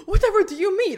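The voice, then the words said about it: Poorly executed fake British accent. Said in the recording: “a poorly executed British accent”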